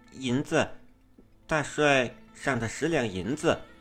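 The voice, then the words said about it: Quiet, fearful low voice. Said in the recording (Chinese): “青青努力做出害怕的样子，小声道”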